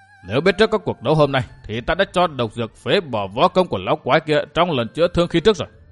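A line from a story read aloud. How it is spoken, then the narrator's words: Muttering old man. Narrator (Vietnamese): Hồi Xuân Ông lẩm bẩm nói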